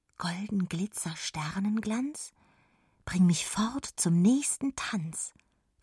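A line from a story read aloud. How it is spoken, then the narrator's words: Whispered. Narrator (German): flüsterte Jonna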